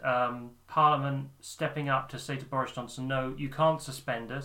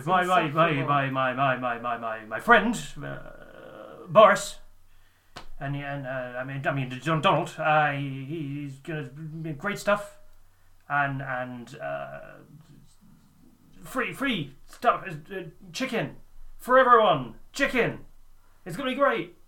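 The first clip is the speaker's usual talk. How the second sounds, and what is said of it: Posh imitation of another person's voice. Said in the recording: “you're doing the voice wrong ... He's so posh.”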